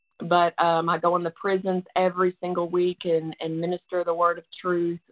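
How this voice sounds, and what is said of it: Tennessee Southern accent. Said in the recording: “you can tell by my accent, but that's where I'm from, right outside of Nashville, Tennessee”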